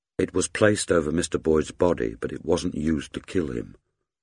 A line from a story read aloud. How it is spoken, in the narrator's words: Kate said gently